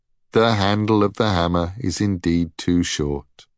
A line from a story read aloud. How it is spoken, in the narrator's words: concluded Brock sadly